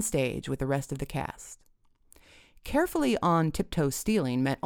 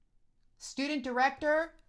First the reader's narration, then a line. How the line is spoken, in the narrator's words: yelled Mr